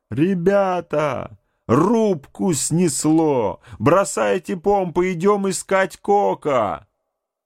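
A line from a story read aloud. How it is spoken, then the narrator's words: Yelling. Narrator (Russian): заорал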